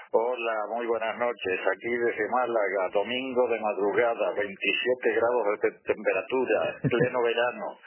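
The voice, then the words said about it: Strong Spanish (Spain) accent. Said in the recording (Spanish): “me escuchan con un acento muy español”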